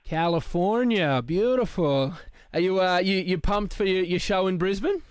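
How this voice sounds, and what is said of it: Put-on accent. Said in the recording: “that stupid accent he just put on”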